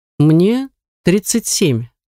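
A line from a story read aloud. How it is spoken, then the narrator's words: Stern, reproachful tone. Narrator (Russian): сообщил он суровым тоном, будто я что-то упустила, когда узнала об этом впервые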